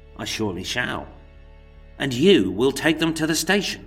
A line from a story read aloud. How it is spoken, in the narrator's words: George barked